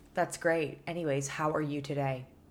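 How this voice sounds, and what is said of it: Flat monotone imitated voice. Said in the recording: “monotone”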